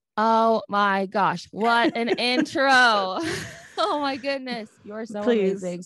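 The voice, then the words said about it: Loud, excited screaming voice. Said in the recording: “I'm screaming”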